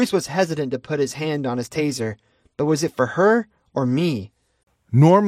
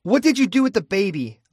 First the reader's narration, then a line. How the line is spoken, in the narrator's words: snapped